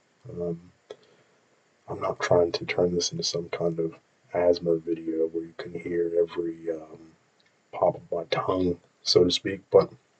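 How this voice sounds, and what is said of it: Speaking very softly and quietly. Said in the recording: “I'm talking so softly ... Hopefully it's not too loud for your ears”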